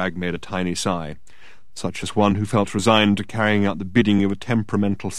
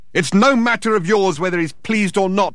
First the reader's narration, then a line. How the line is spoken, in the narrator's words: shouted Thor, disturbing the foundations of the building once more